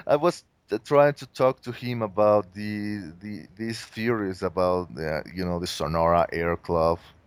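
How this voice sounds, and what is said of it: Mexican accent. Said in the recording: “My Mexican accent is is out of control.”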